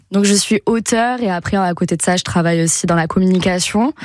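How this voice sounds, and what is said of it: Toulouse French accent. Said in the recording (French): “je suis toulousaine, je crois que ça s'entend à l'accent ou pas ? ... Un petit peu.”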